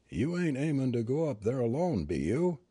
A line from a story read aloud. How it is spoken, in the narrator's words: the old fellow asked in a thin, cracked voice